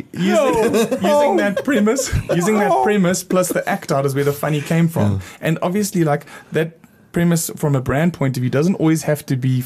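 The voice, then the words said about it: South African accent. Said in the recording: “I'm from South Africa. And that's why I have this strange accent ... they're hearing something funny coming out of my mouth, but I have an accent because I'm from South Africa”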